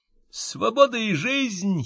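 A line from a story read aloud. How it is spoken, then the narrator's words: Giggle. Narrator (Russian): хихикнул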